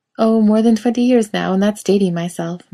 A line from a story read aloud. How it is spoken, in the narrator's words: Miranda says with a laugh